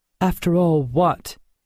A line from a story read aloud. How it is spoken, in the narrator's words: asked Helen sharply